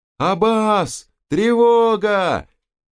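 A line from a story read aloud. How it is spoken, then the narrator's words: Alarmed guard shouting. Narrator (Russian): разбойники всполошились, и один из охранников закричал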